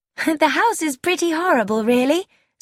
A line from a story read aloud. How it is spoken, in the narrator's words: said Gina cheerfully